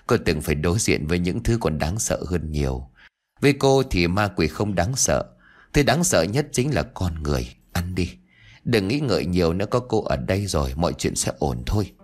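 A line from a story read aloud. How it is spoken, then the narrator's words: Smiling female reply. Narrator (Vietnamese): Cô lại mỉm cười trả lời Yến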